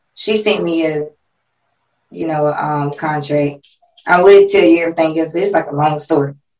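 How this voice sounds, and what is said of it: Hoarse, strained voice. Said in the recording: “I'm getting hoarse over here... because I've been screaming and everything all day”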